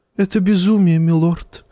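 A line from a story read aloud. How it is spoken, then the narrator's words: Sighing. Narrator (Russian): вздохнул Варис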